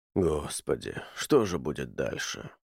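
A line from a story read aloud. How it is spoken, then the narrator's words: Muttered. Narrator (Russian): пробормотал он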